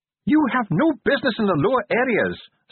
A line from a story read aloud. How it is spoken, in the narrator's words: snapped Ardent